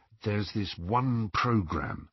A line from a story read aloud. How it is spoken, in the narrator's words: he told Harry in a low voice